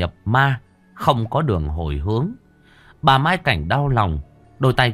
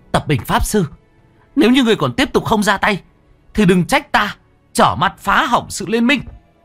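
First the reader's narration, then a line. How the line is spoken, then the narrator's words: Sudden shout. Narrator (Vietnamese): Bất chợt cô anh hét lên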